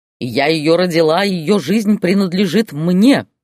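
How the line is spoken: Barking mother. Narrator (Russian): рявкнула мать

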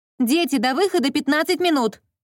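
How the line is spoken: Shouted from afar. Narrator (Russian): Прокричала я с кухни

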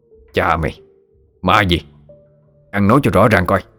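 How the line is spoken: Harsh, gritted voice. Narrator (Vietnamese): Lão gằn giọng nói

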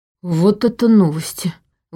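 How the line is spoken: Breathed out. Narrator (Russian): выдохнул Ваня

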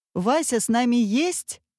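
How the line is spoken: Boy shouting. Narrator (Russian): крикнул мальчик товарищам

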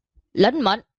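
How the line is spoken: Raised voice. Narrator (Vietnamese): Lưu Đồng cao giọng

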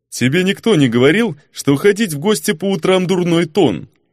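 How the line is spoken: Joyless snort. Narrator (Russian): Невесело хмыкнул

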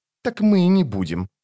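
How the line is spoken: Snapping retort. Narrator (Russian): огрызнулась сестра

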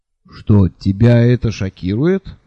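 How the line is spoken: Calm question. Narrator (Russian): спокойно спросил Лонли Локли

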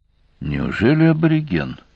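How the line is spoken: Quiet question. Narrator (Russian): тихо спросил Олес

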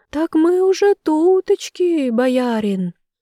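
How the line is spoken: Tiny thin voice. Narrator (Russian): тонюсеньким голосочком ответствовал

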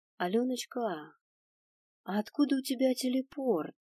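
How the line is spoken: Gentle question. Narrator (Russian): Ласково поинтересовалась я

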